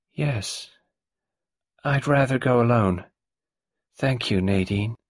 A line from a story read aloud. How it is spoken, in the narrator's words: Ginevra Boynton said, her voice suddenly flat and dull